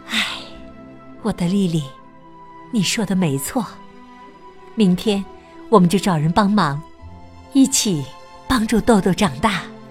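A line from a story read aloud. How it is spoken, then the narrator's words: Sighing mother. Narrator (Chinese): 妈妈叹了口气说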